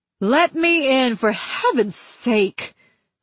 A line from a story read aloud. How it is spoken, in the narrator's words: she cried